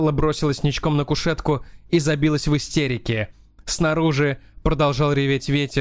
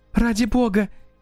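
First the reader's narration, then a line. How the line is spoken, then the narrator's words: Frightened exclamation. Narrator (Russian): испуганно воскликнула Стелла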